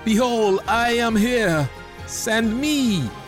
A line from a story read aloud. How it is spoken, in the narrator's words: cried